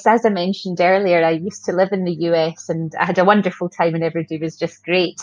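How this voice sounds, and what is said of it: Scottish accent. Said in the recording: “she's in Scotland ... if my accent doesn't grate on you too much”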